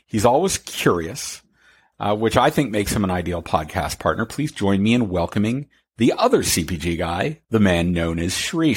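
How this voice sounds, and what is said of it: Deep polished radio voice. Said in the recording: “my dear man with the radio voice”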